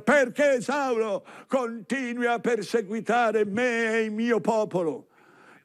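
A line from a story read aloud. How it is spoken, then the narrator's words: Shout from above. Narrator (Italian): Cristo di sopra grida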